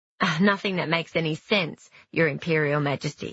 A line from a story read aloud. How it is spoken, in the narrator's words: said Ping